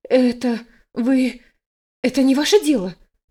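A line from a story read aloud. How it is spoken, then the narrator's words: Faltering babble. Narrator (Russian): Пролепетала я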